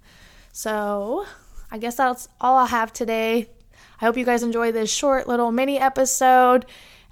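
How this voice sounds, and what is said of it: Congested voice from a cold. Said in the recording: “I have a little bit of a cold, so hopefully my voice is not too cringy over this microphone.”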